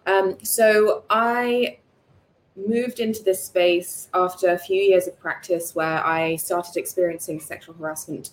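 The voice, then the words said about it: Accent not sounding Singaporean. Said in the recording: “I've grown up in Singapore, been here my whole life pretty much, although you wouldn't know it from the accent.”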